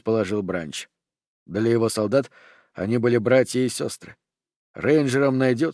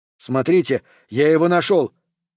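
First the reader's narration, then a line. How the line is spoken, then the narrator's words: Distant shout, man. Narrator (Russian): крикнул пулеметчик из-за кучи тел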